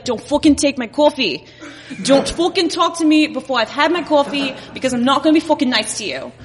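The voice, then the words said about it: Put-on Long Island accent. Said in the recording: “there's a lot of people, Indian people on Long Island, and so I thought about, like, what would that version of me be like? And she'd probably be pretty similar to this”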